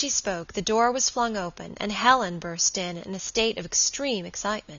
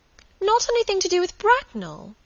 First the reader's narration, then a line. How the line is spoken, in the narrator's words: cried Margaret